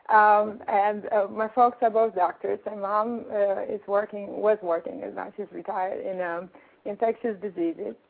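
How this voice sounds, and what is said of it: European accent. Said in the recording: “I'm from Europe, as you can tell from the accent.”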